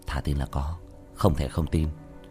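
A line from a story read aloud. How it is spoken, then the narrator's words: Quiet voice. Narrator (Vietnamese): Lưu Viễn nhỏ giọng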